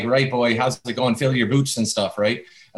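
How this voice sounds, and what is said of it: Put-on Canadian Maritimes accent. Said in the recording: “your accent sometimes comes from a certain part of Canada... when I go out to the Maritimes in Canada... big Irish influence”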